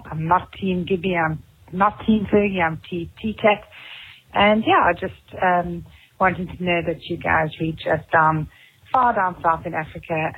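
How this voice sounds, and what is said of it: Cape Town South African accent. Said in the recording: “Oh, I love Cape Town, man. So I really, and I love that accent.”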